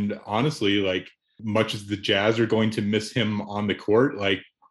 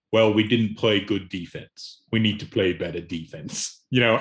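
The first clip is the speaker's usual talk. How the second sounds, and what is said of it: Imitates another person's voice, poorly. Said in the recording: “that your impression? ... Yikes, that wasn't great. ... I didn't claim to be a master impression.”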